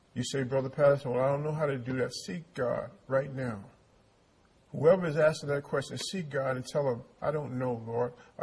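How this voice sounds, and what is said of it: Speaks with a noticeable accent. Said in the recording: “I talk a little funny ... I don't have the same accent you do”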